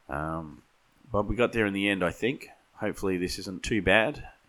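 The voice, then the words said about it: Sick, strained voice. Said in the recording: “I'm also dealing with COVID, so you'll have to excuse my voice... my apologies for the sound quality”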